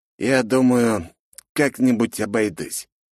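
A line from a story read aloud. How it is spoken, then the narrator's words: Uncertain smirk, heavy sigh. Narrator (Russian): неуверенно ухмыльнулся вампир и тяжело вздохнул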